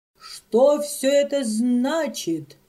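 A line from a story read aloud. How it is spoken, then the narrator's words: Roaring. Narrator (Russian): взревел щупленький граф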